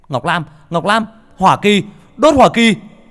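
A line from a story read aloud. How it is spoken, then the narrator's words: Shouting. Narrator (Vietnamese): Khải hét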